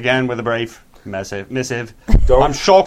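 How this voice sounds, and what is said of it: Put-on Australian accent. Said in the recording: “They stop listening if you use an Australian accent.”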